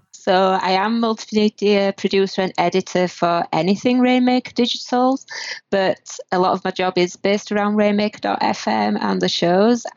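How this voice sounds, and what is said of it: Northern British accent. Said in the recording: “the north of Britain. If anybody has trouble understanding my accent”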